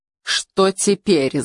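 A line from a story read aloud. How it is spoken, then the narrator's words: Angry question. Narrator (Russian): злобно спросил он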